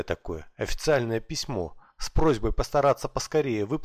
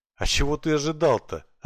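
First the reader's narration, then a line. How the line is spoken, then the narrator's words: Laughing. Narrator (Russian): рассмеялся Макс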